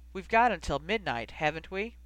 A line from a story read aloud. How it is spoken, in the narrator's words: Rose sighed so heavily that the flames visibly flickered away from her